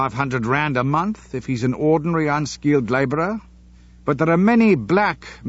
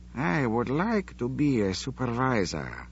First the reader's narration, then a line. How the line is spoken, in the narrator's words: he murmured thoughtfully